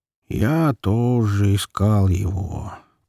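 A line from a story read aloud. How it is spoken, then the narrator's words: Slow drawl. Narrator (Russian): протянул Егорка, растягивая слова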